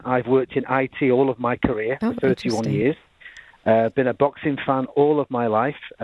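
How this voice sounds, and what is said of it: Manchester English accent. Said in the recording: “as you can tell with my accent, I'm certainly not from Southwest Detroit ... I'm a native of Manchester, England.”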